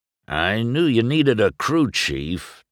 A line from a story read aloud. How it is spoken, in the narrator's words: Doc rumbled